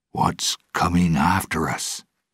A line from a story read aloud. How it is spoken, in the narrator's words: asked quietly